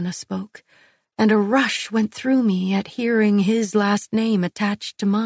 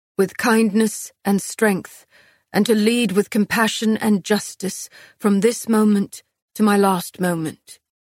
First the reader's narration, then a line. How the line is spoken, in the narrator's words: Castile answered, his voice thick